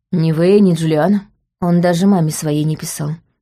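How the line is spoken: Plain. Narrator (Russian): сказала я

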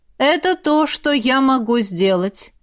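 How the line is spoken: Even reading tone. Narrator (Russian): продолжил читать Родерик ровным тоном

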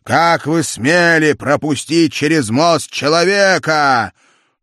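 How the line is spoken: Angry shout. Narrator (Russian): Тандердель закричал на грифонов

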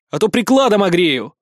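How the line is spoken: Shouted. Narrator (Russian): выкрикнул я

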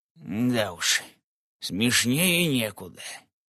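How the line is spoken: Grumbling grandfather. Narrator (Russian): Проворчал дедушка

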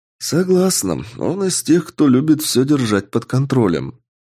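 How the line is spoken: Thoughtful. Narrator (Russian): задумчиво ответила Аретто

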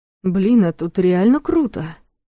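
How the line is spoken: Breathless exhale. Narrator (Russian): выдохнул Ярик

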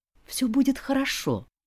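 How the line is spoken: Whispered. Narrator (Russian): прошептала я

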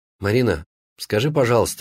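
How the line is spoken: Very sad question. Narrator (Russian): спросил очень печально Саша

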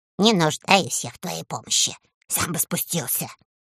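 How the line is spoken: Grumbling whisper, little man. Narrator (Russian): Человечек совсем не испугался, а сказал ворчливым шепотом

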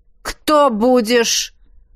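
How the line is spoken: Stern question. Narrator (Russian): строго спросила Акулина

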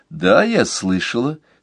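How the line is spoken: Calm. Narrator (Russian): спокойно ответила мама

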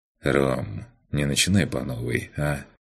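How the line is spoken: Sighing. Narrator (Russian): Макс вздохнул

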